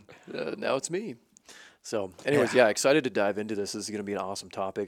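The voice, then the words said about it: Raspy voice. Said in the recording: “It's my turn to have a raspy voice.”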